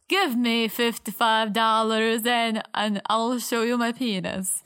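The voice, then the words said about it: Put-on Italian accent. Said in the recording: “This was my Italian accent.”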